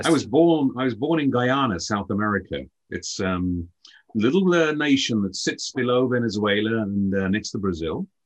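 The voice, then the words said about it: Slight British accent. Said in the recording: “you have a slight accent, so you are not from the U.S. ... you're from the U.K.”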